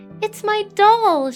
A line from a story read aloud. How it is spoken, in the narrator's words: she cried